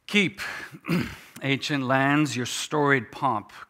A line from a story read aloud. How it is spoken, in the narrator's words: cries she with silent lips